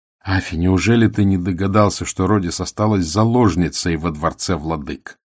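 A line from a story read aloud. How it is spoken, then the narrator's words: Plain. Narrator (Russian): сказал Ганатал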